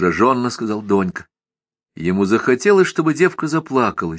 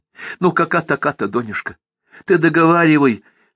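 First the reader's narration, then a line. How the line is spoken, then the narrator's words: Pleading. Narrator (Russian): взмолилась Стайка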